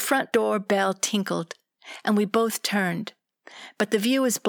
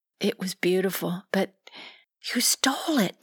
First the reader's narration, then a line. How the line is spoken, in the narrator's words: I whispered